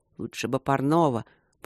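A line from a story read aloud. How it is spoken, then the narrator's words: Muttering. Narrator (Russian): пробормотала его светлость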